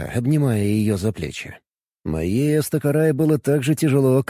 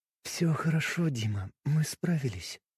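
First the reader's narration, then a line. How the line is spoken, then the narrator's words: Soft. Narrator (Russian): тихо произнесла она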